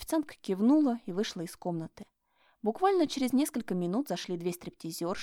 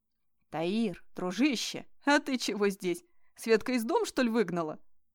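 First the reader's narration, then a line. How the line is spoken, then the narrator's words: Snorting. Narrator (Russian): хмыкнул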